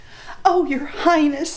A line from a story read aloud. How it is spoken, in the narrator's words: cried